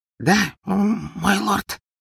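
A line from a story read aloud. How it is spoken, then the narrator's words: Timid breathy small man. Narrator (Russian): выдохнул маленький человечек, съежившись в своем кресле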